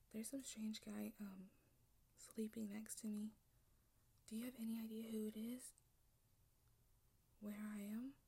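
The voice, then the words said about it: Whispering. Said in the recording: “Why I'm whispering?”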